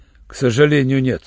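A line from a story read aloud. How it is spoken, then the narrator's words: Rough. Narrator (Russian): грубо сказал Руальд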